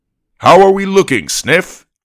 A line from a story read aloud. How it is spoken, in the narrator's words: he asked in a friendly, booming voice